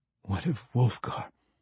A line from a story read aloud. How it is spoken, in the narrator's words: Drizzt managed to say, though the name got muffled as Catti Bree pressed tightly, her hair thick against Drizzt's face